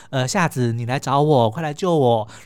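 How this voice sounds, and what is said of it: Imitating the older sister's voice. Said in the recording (Chinese): “苍鹭也是一样换成姐姐的声音说”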